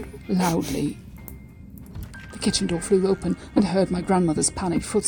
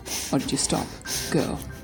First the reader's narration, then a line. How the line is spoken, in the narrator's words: I murmured, louder